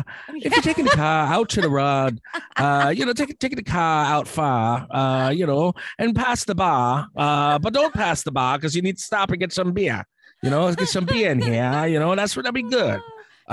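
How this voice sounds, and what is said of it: Put-on Boston accent. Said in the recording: “Boston accent. ... Nailed it. It was like Lucky Charms went to a fucking Celtics game.”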